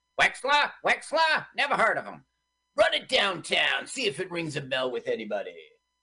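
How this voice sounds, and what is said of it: Imitates another person's voice. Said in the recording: “Is that your Charles Bronson impersonation? ... Yeah.”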